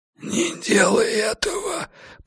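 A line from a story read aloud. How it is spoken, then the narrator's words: Wheezing. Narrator (Russian): просипел Арне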